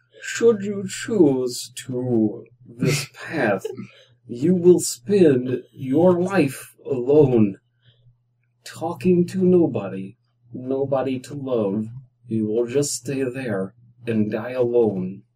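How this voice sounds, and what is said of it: Subtle put-on Russian accent. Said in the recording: “Make it a little more Russian ... A Russian trying to hide their accent.”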